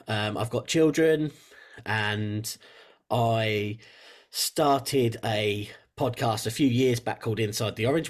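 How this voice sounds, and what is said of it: English accent. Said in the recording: “you might tell from the accent, I'm from England in the UK”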